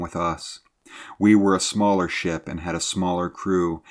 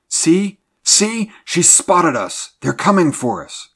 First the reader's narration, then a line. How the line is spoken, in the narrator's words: cried the mate wildly